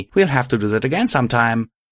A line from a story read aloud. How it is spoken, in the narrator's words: she said excitedly